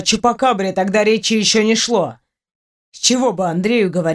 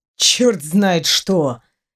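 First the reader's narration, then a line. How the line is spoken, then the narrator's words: Grumble. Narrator (Russian): проворчал Дементьев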